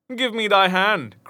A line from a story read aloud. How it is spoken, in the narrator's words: cried he